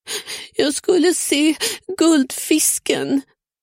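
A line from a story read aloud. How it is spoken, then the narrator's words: Boy sobbing, crying. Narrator (Swedish): snyftade pojken medan tårarna forsade ner för ansiktet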